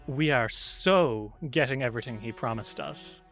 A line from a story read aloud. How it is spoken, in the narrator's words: Hu Yin kind of like sneers and says